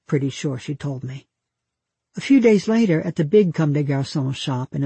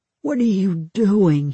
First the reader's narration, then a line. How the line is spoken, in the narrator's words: Hugh moaned